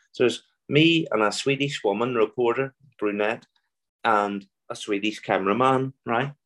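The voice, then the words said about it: Belfast Irish accent. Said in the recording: “if you listen closely to my accent, I'm from Belfast.”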